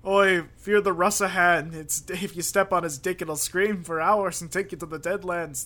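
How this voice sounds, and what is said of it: Put-on Irish accent. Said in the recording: “my Irish impression ... Was it good? ... Well, that was really great, yeah.”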